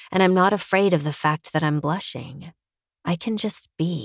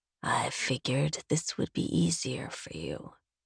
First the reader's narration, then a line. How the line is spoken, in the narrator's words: he says softly